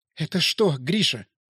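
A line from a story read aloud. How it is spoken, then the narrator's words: Whisper. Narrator (Russian): прошептала она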